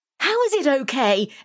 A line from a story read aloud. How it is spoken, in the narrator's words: Emily cried, hopping around with one leg in her pants